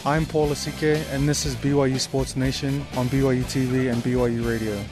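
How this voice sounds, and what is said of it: New Zealand accent. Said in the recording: “It's the accent, man. ... a dude from New Zealand”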